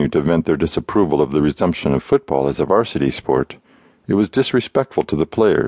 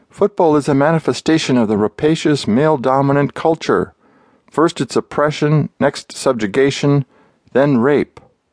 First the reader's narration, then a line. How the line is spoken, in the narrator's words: She shouted